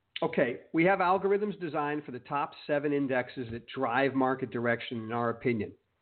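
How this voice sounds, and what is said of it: Voice sounds sick, under the weather. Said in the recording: “I'm a little bit under the weather, so you can hear that in my voice.”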